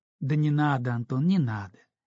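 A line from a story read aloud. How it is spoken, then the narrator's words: Gentle interruption. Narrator (Russian): мягко прервала она его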